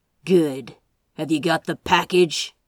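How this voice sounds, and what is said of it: Rough, demanding character voice. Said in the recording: “demanded in a rough voice”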